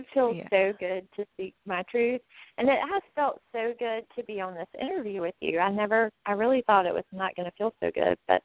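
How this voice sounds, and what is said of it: Sweet Southern US accent. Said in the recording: “so good to hear your voice and your sweet accent ... we don't talk like that up here ... in the South”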